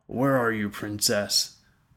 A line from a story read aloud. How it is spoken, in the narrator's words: Tandros growled to the empty room